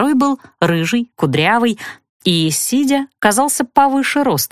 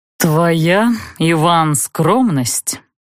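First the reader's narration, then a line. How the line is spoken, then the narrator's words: Drawling. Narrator (Russian): протянул рыжий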